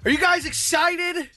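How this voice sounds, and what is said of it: Excited yelling. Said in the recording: “Why are you yelling? ... Because it's the morning. I'm excited.”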